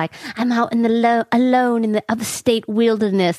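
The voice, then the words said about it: Speaks in a put-on accent. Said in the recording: “I don't know why I have an accent”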